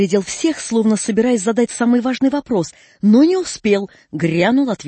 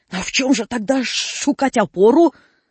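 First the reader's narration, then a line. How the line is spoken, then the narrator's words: Mumbling then sudden roar. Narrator (Russian): забормотал что-то похожее на песню, да вдруг как заревет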